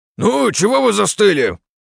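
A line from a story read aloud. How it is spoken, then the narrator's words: Sharp shout. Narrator (Russian): прикрикнул на него Кораблев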